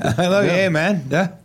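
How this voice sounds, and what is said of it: Weak attempt at Canadian accent. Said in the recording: “I went for the Canadian accent. I fell short.”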